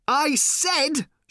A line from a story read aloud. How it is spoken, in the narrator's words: shouted Ford